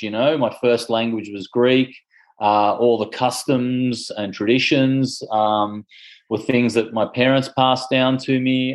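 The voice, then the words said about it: Australian accent. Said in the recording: “You can hear it in my voice that I speak with an Australian accent,”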